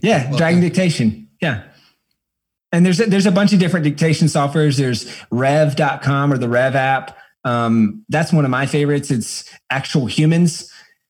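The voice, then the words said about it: Slight Southern American accent. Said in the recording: “I've got a little bit of a Southern accent”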